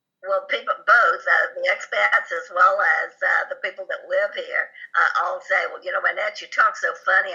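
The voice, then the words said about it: Southern US accent. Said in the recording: “everyone kids me about my southern accent. I am southern ... people make fun of your southern accent”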